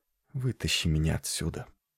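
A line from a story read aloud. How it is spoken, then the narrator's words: Whispered mumble. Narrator (Russian): пробормотал шепотом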